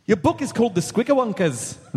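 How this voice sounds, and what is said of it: Attempted Scottish accent sounding Irish. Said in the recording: “only try Scottish ... Nope, that's Irish.”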